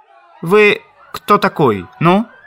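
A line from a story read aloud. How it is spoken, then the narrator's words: Angry, through teeth, loud. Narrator (Russian): Колчак со злобой сквозь зубы, но достаточно громко спросил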